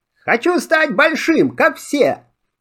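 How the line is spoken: Exclaimed. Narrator (Russian): Сумбоси воскликнул

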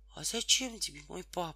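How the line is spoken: Sad, surprised question. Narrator (Russian): грустно и удивленно спросила Тома

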